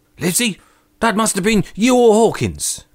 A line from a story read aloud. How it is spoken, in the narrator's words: cried the squire